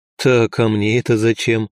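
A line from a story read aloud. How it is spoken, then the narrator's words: Wry snort. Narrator (Russian): хмыкнул я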